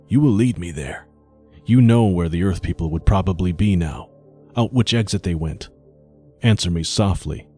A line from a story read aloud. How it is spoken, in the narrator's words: whispered